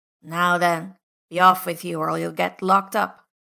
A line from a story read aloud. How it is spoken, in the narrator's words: a stern voice growling